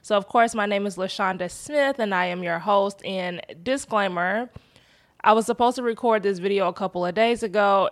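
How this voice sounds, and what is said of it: Congested, unusually deep voice. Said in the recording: “I have a cold, and so I sound like a man ... my voice may sound a little bit different”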